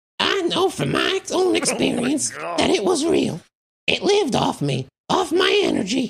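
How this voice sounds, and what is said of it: Old Southern lady voice. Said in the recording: “she's an old Southern lady ... that's Marge Simpson's mom right there ... It, like, got better, the impression”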